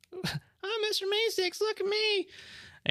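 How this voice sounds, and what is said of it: Mr. Meeseeks impression. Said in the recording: “do their best Meeseeks”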